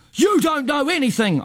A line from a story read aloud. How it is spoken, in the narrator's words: shout